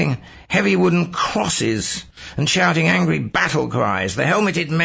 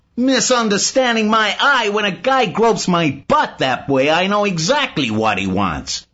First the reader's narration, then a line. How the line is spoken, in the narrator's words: Simon shouts